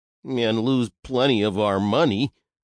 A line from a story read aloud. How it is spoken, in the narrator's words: grumbled Henry